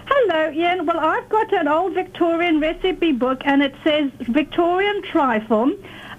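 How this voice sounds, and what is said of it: South African accent. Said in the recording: “I'm detecting an accent. ... South Africa. ... You're a South African.”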